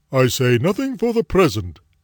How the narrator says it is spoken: exclaimed

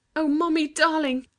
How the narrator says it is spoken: cried Anthea

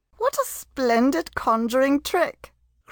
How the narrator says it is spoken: cried the lady, enchanted

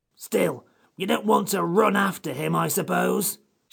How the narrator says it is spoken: snapped the Psammead

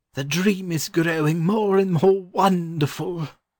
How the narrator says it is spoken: he exclaimed

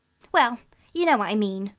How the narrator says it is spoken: Cyril went on impatiently

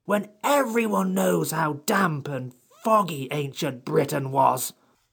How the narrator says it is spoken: said the Psammead still more crossly

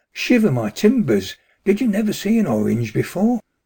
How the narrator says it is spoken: the cap'n cried

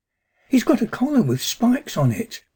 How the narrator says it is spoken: cried excitedly

